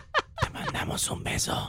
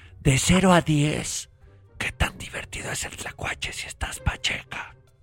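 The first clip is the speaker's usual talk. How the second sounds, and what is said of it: Whispered question. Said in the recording (Spanish): “Porque es susurrado”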